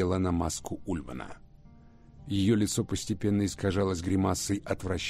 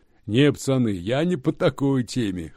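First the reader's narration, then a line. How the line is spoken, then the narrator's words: Short laugh. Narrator (Russian): хохотнул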